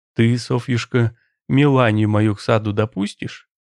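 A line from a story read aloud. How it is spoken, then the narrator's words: Quiet question. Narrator (Russian): Аркадий спросил негромко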